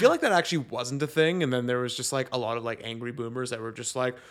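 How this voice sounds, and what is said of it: Usual voice. Nothing is said of it.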